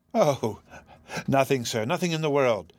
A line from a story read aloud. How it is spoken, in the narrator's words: answered Phoebe, with a little laugh of vexation at herself